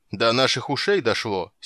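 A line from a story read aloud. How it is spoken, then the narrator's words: Angry huffing. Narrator (Russian): сердито засопел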